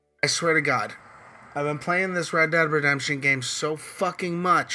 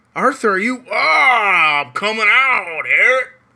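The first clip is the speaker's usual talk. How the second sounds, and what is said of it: Put-on Southern US accent. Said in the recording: “I'm starting to get the natural southern accent. ... Like I'm actually starting to talk like the guy. ... Did you guys hear that?”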